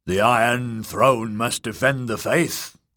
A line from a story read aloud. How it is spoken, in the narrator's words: growled the hulking lout